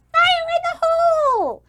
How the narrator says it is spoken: another goblin yells

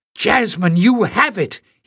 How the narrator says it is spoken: exclaimed

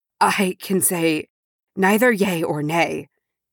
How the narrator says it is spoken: he said hoarsely

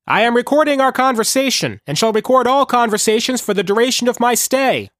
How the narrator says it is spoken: Foster yelled, competing with the helicopter as it wound itself down

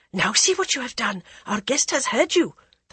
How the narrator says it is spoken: the Maharani whispered

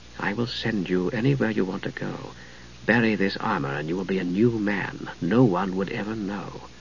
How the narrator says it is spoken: said softly

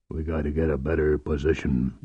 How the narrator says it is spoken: Bathari muttered

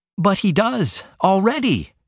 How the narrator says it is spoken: she cried

